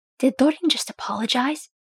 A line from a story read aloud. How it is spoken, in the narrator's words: Fili whispered in shock